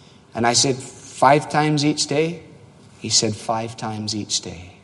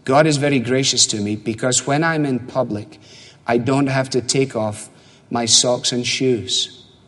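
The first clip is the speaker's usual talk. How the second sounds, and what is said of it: Broken Middle Eastern accent. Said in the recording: “in a broken Mideastern accent.”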